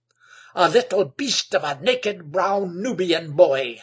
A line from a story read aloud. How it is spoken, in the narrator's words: spluttered Egbert